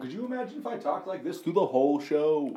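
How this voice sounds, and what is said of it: Exaggerated radio announcer voice. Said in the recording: “radio voice”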